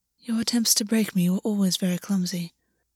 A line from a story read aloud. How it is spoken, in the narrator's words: August said, and his voice was almost absent, as though he were talking to himself